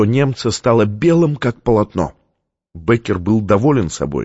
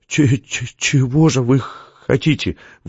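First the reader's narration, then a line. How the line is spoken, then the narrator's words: Stammering, forced out. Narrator (Russian): выдавил он, заикаясь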